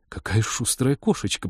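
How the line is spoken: Young woman muttering. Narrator (Russian): пробормотала девушка

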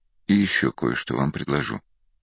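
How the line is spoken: Very quiet, almost whispered. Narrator (Russian): уже совсем тихо произнес, даже прошептал Ахимас

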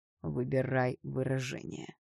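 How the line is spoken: Through gritted teeth. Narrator (Russian): сквозь зубы процедил принц

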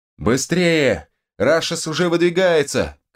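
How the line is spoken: Girl shouting urgently. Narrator (Russian): крикнул кто-то из девчонок-магичек

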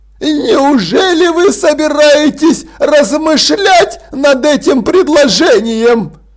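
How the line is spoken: Exclaiming. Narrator (Russian): воскликнул лорд Ржав

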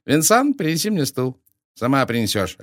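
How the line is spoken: Snapping retort. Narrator (Russian): огрызнулся он

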